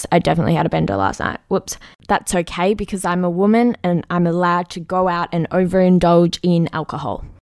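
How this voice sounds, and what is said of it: Hoarse, fading voice. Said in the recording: “Sorry, I am losing my voice.”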